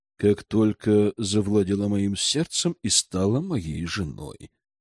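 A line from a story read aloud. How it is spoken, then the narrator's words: Passionate whisper. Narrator (Russian): горячо прошептал наместник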